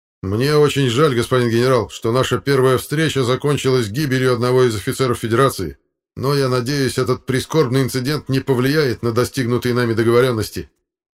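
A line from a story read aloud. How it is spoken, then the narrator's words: Fairly loud statement. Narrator (Russian): капитан Шатаев обернулся к генералу и достаточно громко произнес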